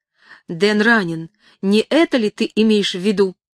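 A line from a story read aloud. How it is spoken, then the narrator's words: Heated exclamation. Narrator (Russian): Грейс воскликнула запальчиво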